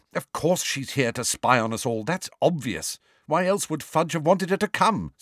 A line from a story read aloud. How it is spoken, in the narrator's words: snapped Hermione